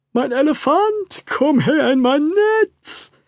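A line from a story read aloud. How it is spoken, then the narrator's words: Big robber calling out. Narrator (German): rief der große Räuber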